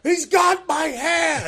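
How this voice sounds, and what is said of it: Screaming. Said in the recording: “I'm screaming”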